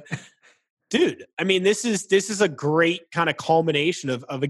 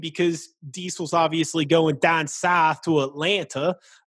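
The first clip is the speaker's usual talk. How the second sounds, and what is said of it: Bad put-on Southern accent. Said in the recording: “Terrible Southern accent.”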